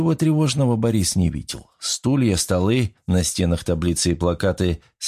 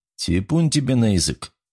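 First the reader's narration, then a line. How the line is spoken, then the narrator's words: Grumbled. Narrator (Russian): буркнул Коган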